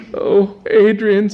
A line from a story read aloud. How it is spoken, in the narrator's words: said the girl, brokenly